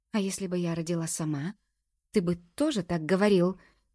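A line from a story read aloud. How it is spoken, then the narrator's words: Broken-voiced question. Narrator (Russian): надломленным голосом спрашиваю я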